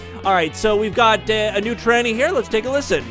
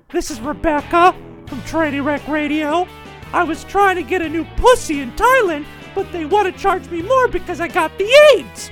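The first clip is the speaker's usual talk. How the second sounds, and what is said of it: Fake female voice. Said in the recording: “the one that sounds exactly like me when I do my fake female voice.”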